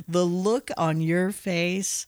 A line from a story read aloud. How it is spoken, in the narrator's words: Mick laughs again and is all